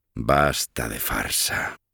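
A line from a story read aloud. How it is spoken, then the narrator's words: Surprisingly low voice. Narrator (Spanish): dijo K, con voz sorprendentemente baja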